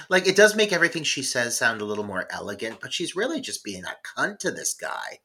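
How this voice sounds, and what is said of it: Usual voice. Nothing is said of it.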